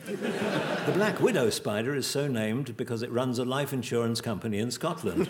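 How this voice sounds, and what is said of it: Lovely radio voice. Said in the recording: “what a lovely radio voice he's got”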